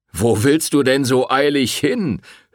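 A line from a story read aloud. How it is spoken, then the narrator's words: Mocking. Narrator (German): höhnte der Wirt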